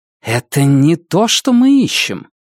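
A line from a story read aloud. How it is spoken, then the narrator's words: Annoyed hiss. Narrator (Russian): Нефрита, с досадой зашипев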